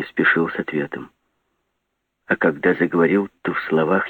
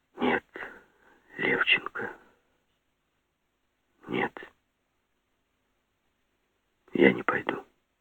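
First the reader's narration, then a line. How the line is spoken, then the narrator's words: Whispered reply. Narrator (Russian): пока я не ответил шепотом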